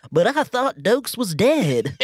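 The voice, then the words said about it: Put-on Southern accent. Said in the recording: “somebody in a southern accent goes”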